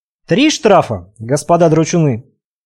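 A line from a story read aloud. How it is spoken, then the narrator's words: Calm correction. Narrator (Russian): Спокойно откорректировал наказание подошедший капитан Дик Стивенсон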